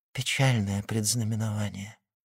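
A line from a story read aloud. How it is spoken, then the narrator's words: Whisper. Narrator (Russian): прошептала Рене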